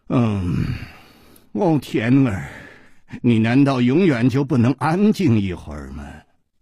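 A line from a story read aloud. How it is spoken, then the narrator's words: Low, seductive voice. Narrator (Chinese): 一声低沉却充满了煽动的吸引力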